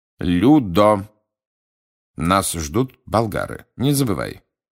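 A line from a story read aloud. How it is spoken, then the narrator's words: Sharp interruption. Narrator (Russian): резко оборвал его мистер Крауч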